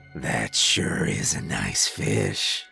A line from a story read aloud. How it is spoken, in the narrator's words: he said, his voice deep and cluttered like he was gurgling stones as he spoke